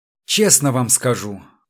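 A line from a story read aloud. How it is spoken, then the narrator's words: Glum. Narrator (Russian): уныло проговорил Чертослепов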